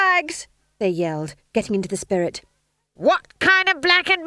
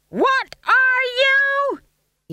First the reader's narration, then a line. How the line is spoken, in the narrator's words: He screamed